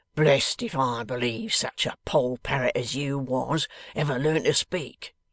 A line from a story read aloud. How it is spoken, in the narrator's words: growled Mr